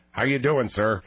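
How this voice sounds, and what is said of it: Put-on stereotypical white-person voice. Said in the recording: “I could talk white ... put on a voice like this”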